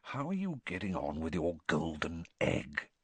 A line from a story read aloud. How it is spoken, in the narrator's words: he lowered his voice